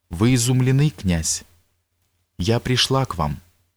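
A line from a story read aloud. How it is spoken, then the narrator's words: Exclaiming. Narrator (Russian): воскликнул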